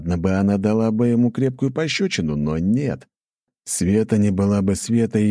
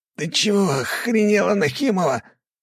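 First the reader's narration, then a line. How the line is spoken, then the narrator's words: Breathless wheeze. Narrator (Russian): ловя ртом воздух, прохрипел Фанеров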